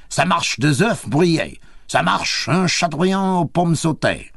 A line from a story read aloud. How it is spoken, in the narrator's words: The head cook, a fine scarlet man with big moustachios, stood in the middle, booming continuously